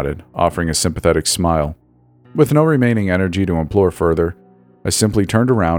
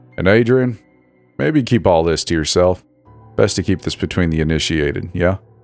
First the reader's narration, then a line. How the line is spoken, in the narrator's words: added with a weak chuckle